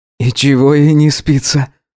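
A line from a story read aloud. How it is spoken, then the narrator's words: Sigh. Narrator (Russian): вздохнул Гидеон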